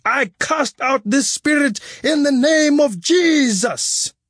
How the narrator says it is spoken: The pastor would grab their heads and violently shake them back and forth, shouting

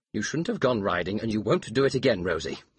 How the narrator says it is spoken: he said firmly

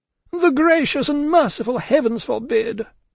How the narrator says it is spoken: cried Miss Pross

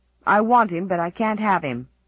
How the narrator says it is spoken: snapped Roddy

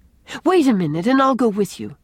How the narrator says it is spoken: exclaimed Anne

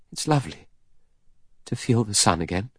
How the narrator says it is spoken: murmuring

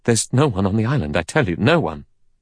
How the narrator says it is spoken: Armstrong said in a trembling voice

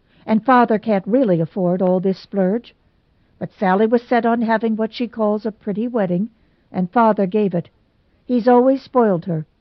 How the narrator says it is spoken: she snapped

